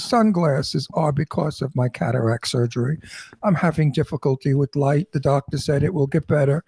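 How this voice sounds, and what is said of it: Hoarse, strained voice. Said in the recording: “lost my voice because the plaster got in my throat”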